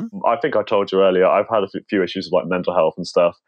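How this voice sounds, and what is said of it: British accent. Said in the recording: “I'm from the UK, which explains the accent”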